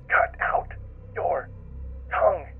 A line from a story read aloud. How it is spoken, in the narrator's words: it whispers